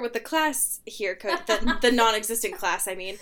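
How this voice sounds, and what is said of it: Scolding teacher voice. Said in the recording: “putting on your teacher voice ... made me feel like I was being scolded”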